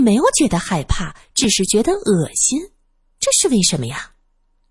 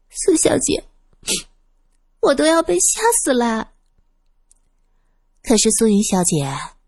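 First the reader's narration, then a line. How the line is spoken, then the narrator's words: Aggrieved, tearful voice. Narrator (Chinese): 素云委委屈屈的……带着哭腔对苏三说道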